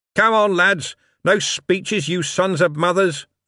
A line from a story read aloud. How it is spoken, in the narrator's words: Vimes shouted back to the others in the guards' van